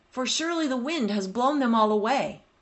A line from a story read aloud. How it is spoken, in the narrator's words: cried the desperate man